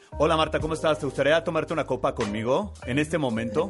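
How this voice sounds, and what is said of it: Sports announcer voice. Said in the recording (Spanish): “Con esa voz de narrador de deportes ... lígame como narrador de deportes”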